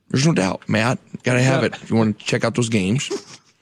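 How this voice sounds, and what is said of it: Imitates another person's voice. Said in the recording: “the first time you unveiled Bill Cosby on the show ... unveiling his impression for the first time”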